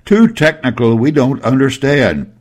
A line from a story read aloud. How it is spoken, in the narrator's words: Simultaneously a half-dozen rats shouted